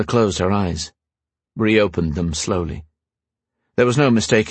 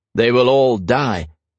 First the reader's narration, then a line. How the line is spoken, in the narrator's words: Christoph said